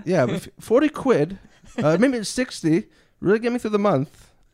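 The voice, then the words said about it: Middling put-on British accent. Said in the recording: “Your British accent is middling, but when you said month, it was perfect. it was like spot on.”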